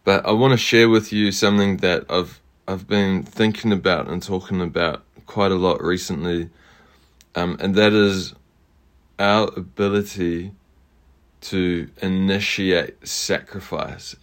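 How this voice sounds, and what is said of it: Hoarse, slightly off-sounding voice. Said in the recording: “I'm coming to you with a bit of a sore throat, so forgive me if my voice sounds a bit funny today”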